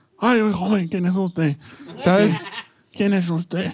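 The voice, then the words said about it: Elderly person character voice. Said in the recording (Spanish): “Puedes poner la voz de payaso y voz de persona mayor.”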